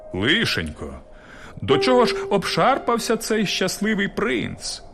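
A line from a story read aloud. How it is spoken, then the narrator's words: Exclamation. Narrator (Ukrainian): вигукнув мер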